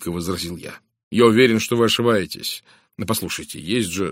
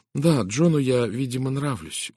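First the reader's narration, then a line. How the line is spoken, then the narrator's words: Glum agreement. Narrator (Russian): уныло кивнув, согласилась она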